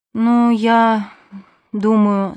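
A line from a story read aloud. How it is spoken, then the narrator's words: Tired. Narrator (Russian): сказала она устало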